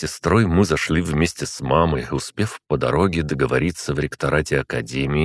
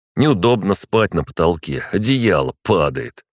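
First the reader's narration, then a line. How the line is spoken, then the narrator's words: Wry snort. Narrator (Russian): хмыкнул на это Жардев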